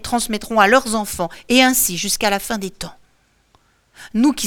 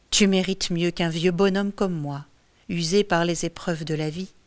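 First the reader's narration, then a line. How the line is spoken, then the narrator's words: Murmured. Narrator (French): murmure-t-il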